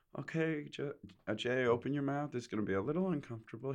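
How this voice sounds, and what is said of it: Calm, Muppety impression of Ken Kwapis. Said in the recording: “He was just so like calm ... That's not a very good impression. ... It's a little too Muppety. ... I was doing Ken Kwapis”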